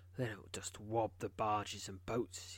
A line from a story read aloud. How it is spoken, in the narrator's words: he says grimly